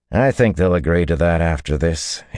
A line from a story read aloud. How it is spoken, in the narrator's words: he said dryly